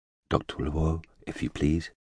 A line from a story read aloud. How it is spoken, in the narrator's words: a voice behind him said softly